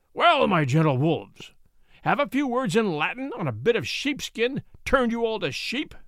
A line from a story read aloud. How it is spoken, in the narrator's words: the baron roared